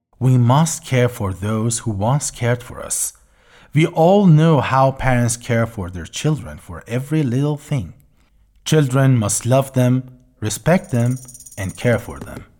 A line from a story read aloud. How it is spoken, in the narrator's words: said calmly